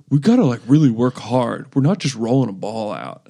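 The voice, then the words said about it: Imitates another person's voice, deliberately dumb. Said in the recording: “worst Kevin Durant impression maybe ever ... I'm just trying to sound like an idiot”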